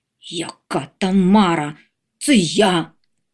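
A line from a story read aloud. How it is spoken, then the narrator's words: Irritated grumble. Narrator (Ukrainian): роздратовано буркнув Ондатр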